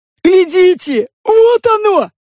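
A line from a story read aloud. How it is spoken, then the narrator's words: Yelling. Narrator (Russian): завопил чей-то голос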